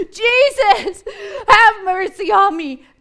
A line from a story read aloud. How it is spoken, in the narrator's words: cry out loud, to shout, particularly like inarticulate cries